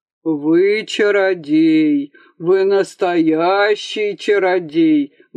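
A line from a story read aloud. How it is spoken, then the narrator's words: Loud booming bass. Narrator (Russian): басил на всю выставку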